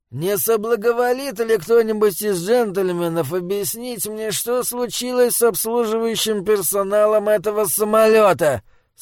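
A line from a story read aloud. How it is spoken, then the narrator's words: Grumpy querulous question. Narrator (Russian): Сварливым тоном осведомился он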